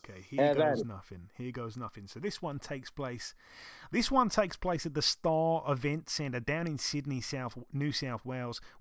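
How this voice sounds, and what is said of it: Put-on Australian accent. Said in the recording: “Shall I do my Australian accent again for this one ... I'm a bit tired as well, so I don't know if that's the best one”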